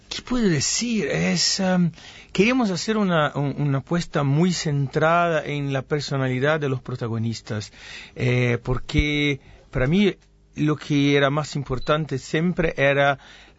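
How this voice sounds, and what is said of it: Spanish with a Buenos Aires accent. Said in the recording (Spanish): “es mi español, todos mis amigos mexicanos me dicen, no, que tienes ese acento porteño”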